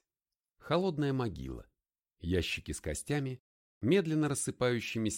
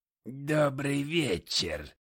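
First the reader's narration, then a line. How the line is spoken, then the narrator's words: Creaky voice. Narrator (Russian): произнес он скрипучим голосом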